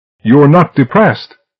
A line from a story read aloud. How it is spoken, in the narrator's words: he yelled after